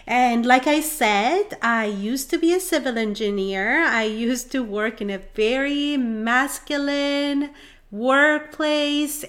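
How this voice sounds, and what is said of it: Iranian Middle Eastern accent. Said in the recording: “You probably can tell from my accent and from my name that I was born and raised in Iran, and so I am Middle Eastern”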